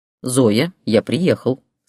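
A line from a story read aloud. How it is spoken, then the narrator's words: Plain. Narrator (Russian): сказал Ярослав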